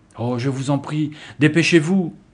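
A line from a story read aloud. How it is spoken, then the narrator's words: Girl crying out. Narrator (French): s'écria l'une des filles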